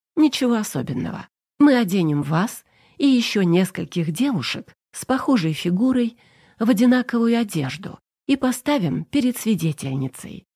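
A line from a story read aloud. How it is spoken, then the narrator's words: Plain. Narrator (Russian): сказала я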